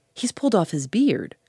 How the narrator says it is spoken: cried Gooseberry

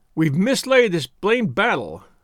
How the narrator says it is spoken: he shouted

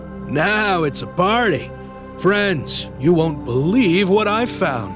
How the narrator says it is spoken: He entered with his usual gusto, loudly declaring

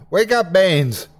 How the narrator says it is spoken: I shouted

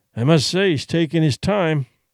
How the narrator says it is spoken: Duncan grumbled

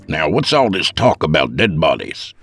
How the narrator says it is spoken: Seth grunted

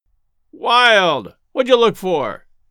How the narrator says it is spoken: called out Cogswell scornfully

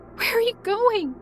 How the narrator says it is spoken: I asked desperately in tears

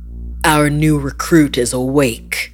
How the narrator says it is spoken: growled

